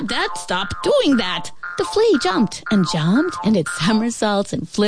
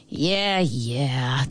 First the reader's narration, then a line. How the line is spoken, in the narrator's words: the ant mumbled